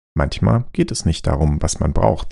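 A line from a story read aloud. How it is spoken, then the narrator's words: Calm. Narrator (German): sagte Staccato ruhig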